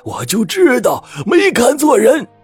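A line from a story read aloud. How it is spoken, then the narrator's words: Exclaiming. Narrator (Chinese): 吴教授叫道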